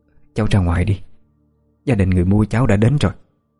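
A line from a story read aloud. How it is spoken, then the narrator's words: Trembling old woman's voice. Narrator (Vietnamese): Giọng bà trở nên run run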